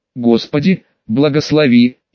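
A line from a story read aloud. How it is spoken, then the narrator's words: Gruff mutter. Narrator (Russian): Сергей буркнул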